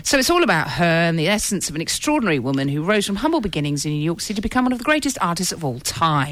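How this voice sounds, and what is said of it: Talking very fast. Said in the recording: “Why are you talking so fast?”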